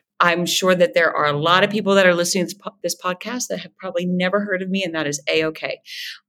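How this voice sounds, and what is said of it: Nasal American accent. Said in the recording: “I am American, that you could probably tell by my nasal accent”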